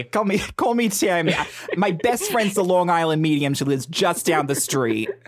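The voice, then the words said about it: Put-on Brooklyn accent. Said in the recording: “Can we do this in like a Brooklyn? ... In like a Brooklyn accent.”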